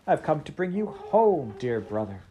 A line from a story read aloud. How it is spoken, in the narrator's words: said the child